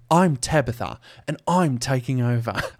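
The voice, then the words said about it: Poor British-Australian accent. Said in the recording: “That's a terrible British Australian accent right there.”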